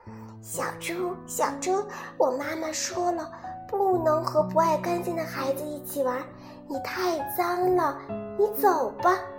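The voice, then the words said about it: Soft, quiet voice. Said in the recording (Chinese): “小声的对小猪说”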